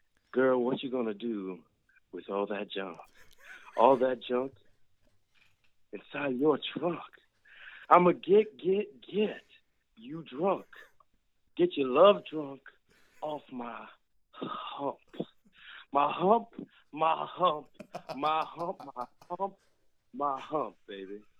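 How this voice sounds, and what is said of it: Deep radio voice, poetry-reading style. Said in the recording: “I'm going to put my radio voice on real quick ... like one of those poetry readings ... a little bass”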